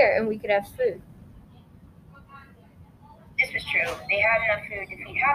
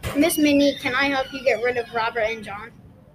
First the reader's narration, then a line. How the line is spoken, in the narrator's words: Jack yelled